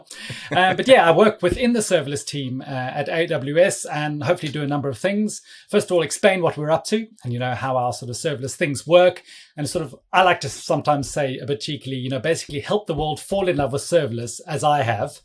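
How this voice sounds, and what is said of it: London-sounding accent. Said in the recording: “I'm based in London. But yeah, please don't let my accent fool you. I'm actually originally from South Africa”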